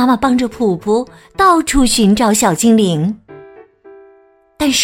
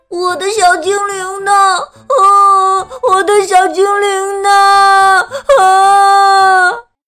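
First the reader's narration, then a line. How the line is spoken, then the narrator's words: Crying and shouting. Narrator (Chinese): 他边哭边喊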